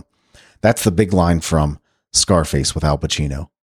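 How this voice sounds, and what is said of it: Usual voice. Nothing is said of it.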